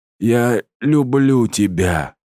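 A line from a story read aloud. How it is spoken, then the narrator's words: Exhausted young man's gasp. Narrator (Russian): Из последних сил выдохнул парень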